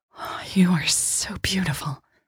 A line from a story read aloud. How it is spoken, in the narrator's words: she breathed